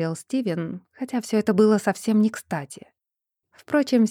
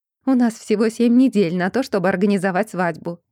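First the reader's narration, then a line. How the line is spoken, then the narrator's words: Happy rapid chatter. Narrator (Russian): радостно тараторила мама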